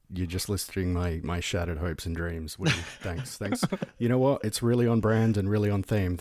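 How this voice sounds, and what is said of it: Smooth public radio voice. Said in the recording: “You got a great great public radio voice there”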